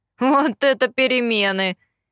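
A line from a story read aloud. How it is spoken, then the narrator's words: Chuckle. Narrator (Russian): хохотнул Итан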